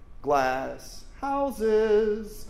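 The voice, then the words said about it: Texas woman accent. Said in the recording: “It's Texas woman accent.”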